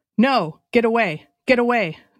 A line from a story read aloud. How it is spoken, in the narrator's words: they cried, terrified of the chum line that streamed from Smith's hand